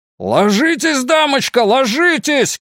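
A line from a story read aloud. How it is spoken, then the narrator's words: Shout. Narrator (Russian): крикнул ей Сабло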